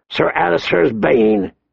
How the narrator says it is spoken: he grunted

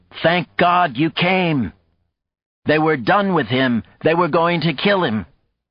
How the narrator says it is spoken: shouted

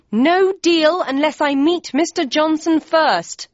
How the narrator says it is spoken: yelled back

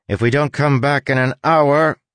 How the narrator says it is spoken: Crow shouted

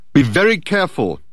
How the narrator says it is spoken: Dirk called out to her

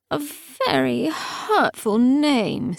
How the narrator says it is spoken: said Ianthe, and yawned

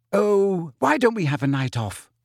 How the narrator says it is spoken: said Hermione brightly

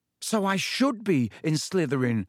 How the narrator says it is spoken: Harry said, looking desperately into Dumbledore's face

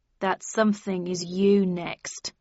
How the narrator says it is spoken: spat Tweed

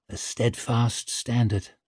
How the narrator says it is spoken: Leo found he'd murmured with not a little awe

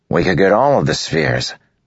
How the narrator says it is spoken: Moash said eagerly

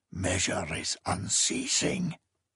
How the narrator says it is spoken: A stranger's voice whispered

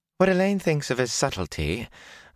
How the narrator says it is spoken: Bellavere said sweetly

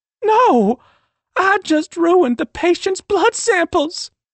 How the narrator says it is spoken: Sage sobbed

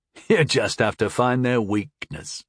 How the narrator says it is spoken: chuckled the older man

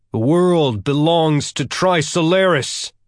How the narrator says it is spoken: Accompanied by the sound of crashing waves and the wind howling against the antenna, the ETO fighters shouted as one

